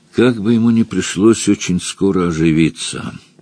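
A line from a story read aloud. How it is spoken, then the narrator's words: Grim remark. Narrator (Russian): мрачно заметил Пандро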